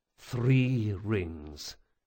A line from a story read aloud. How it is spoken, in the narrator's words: Jean muttered